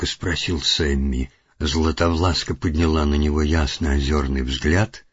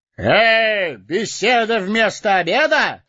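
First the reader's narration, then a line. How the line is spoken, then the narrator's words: Ringing shout. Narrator (Russian): звонко выкрикнул он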